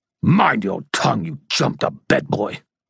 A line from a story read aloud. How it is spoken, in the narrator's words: the Fomor snarled